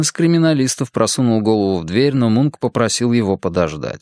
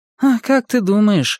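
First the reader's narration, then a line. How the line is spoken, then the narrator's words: Sighing. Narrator (Russian): вздохнула Анетта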